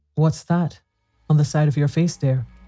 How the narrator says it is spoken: Her voice was sharp with anxiety

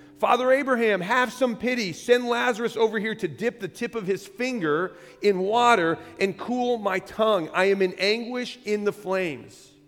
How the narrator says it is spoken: And the rich man shouted across the chasm

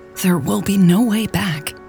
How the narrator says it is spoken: had whispered

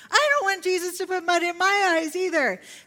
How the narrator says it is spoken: another toddler cried out

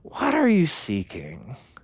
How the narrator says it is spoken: compassionately sees the longing inside of our hearts and gently asks the question

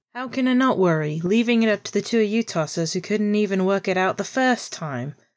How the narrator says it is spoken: Pete groaned loudly

